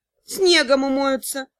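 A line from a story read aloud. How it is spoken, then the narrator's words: Grumble. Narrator (Russian): буркнул мастер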